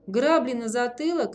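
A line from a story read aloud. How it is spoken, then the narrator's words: Barked. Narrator (Russian): рявкнул первый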